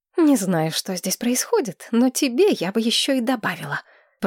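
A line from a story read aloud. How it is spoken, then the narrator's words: Hissing. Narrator (Russian): Прошипела Мэтчен Садден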